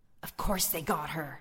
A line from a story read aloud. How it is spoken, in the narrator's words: another head hissed